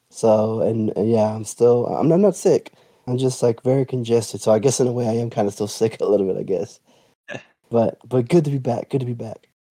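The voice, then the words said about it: Congested voice, cutting in and out. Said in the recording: “My voice isn't 100% there. It goes in and out. It sounds like I'm losing it, but I'm just really, really congested right now.”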